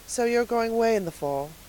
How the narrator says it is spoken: said Miss Lavendar wistfully

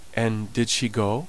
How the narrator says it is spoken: asked

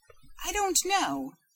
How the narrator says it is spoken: she faltered

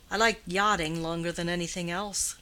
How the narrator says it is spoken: said Grandcourt

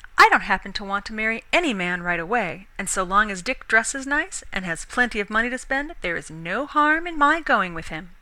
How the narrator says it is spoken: Lena answered curtly

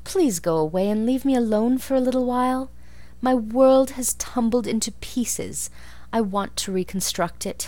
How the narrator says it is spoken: pleaded Anne

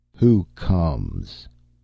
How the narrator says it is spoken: a hoarse bass cry that rang and boomed between walls of rock

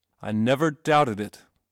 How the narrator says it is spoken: said Mr

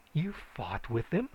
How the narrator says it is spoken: she exclaimed

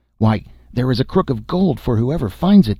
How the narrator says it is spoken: they cried, so eager were they for the gold

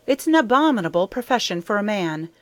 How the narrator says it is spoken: cried Anne rather sharply, afraid that Gilbert might blunder on the truth if he kept on in this strain

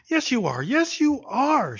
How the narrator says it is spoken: she cried, turning away her face that he might not see her brimming eyes

